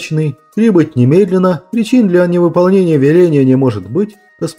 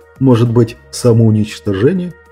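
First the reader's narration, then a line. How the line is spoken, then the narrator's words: Dread-filled whisper. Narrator (Russian): прошептал Меркурий, ощущая холодок от предчувствия чего-то неизбежного, чудовищного, трагичного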